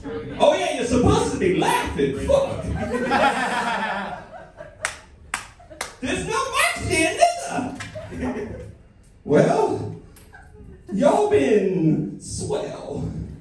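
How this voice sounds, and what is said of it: Put-on accent like Pulp Fiction characters. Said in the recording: “I can't believe I kept this accent the whole time. ... That was like every character from Pulp Fiction.”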